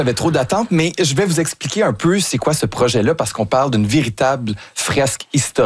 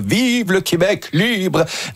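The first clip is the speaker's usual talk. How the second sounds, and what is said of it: Imitates another person's voice, mediocre. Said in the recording (French): “Moyenne imitation, mais l'intention était là. ... On dirait qu'il avait la grippe ce jour-là.”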